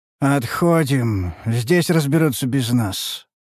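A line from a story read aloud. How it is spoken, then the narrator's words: Dull tired voice. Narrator (Russian): проговорил я потухшим усталым голосом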